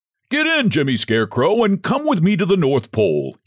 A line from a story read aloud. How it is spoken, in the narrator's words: he cried